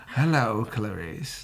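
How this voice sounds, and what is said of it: Hannibal Lecter character voice. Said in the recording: “That was my first Hannibal impersonation ever.”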